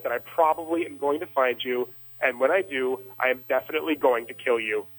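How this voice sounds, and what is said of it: Calm, measured threatening delivery. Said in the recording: “I'm saying this, like, calmly now ... now in a very calm voice”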